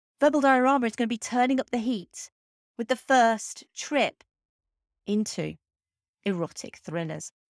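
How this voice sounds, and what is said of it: Sultry, seductive voice. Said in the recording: “put on my sexy voice”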